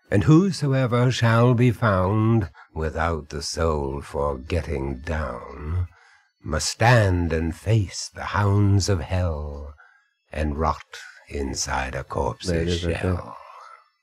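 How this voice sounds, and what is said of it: Vincent Price impression. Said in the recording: “Vincent Price. ... Sounds just like ... Accent this time.”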